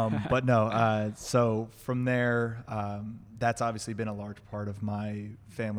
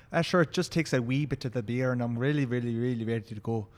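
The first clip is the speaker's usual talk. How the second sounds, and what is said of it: Put-on Irish accent. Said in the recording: “I can put on an Irish accent at any point if I need to”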